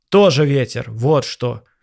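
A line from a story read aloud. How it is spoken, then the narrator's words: Irritated snap. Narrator (Russian): огрызнулся дядя Миша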